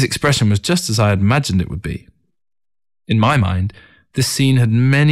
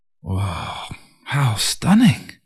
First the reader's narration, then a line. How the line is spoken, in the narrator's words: His mouth agape, Ting mumbled